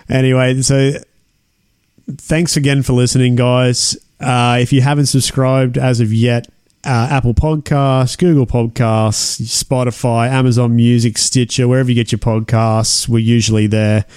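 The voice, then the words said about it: Tired, weary voice. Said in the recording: “You can hear it in my voice how tired I am, eh? Just trying to push through these sentences.”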